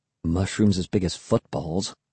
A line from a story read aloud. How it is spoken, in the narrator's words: I murmured